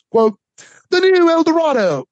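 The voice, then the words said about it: Deliberately bad put-on accent. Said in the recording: “That's a terrible accent.”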